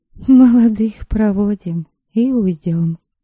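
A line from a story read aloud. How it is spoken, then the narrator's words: Sighing. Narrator (Russian): вздохнула Софья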